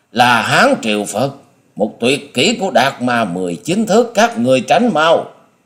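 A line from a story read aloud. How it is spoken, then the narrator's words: Panicked shriek. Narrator (Vietnamese): điểu thần ma hốt hoảng rú lên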